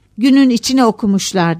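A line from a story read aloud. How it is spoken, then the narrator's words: Shouting. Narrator (Turkish): diye bağırdı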